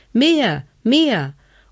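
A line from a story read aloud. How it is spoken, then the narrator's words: Little man calling. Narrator (German): so rief der kleine Hebelmann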